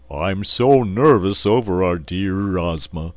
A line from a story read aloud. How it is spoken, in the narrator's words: said the Cowardly Lion in his deep, rumbling voice